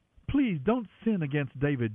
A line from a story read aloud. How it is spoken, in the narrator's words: Jonathan pleaded